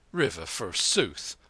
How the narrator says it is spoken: the man snorted

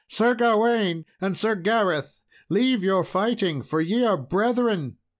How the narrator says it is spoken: she cried out

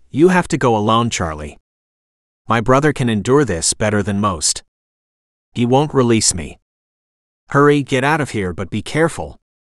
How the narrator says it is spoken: Kalia spoke over them calmly

